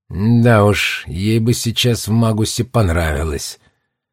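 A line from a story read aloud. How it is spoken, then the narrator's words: Gloomy. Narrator (Russian): мрачно предположил директор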